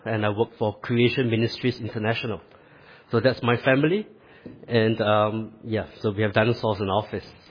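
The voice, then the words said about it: Singaporean English accent. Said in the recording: “I sound different from most of you. And that's because I'm actually from the other side of the world. I'm actually from Singapore.”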